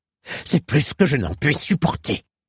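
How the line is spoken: Voice shaking with rage. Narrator (French): s'écria-t-il le timbre vibrant de rage

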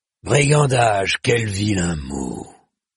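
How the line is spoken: Big dog growling. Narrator (French): grogna le molosse

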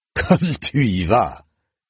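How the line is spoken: Sneering. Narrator (French): ricana le bâtard

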